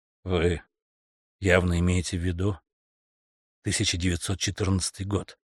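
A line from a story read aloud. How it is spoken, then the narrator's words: Quiet. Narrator (Russian): тихо проговорил Стэнтон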